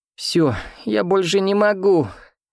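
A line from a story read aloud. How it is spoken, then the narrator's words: Speaking, then sobbing. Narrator (Russian): сказала Аленка и зарыдала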